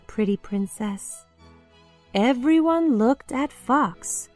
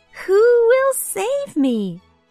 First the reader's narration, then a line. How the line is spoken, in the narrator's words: cried the pretty princess again